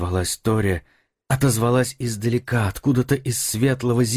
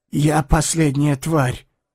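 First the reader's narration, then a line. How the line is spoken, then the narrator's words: Exhaled through parched lips. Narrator (Russian): выдохнул он запекшимся ртом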